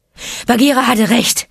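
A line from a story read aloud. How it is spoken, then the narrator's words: Panting. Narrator (German): keuchte er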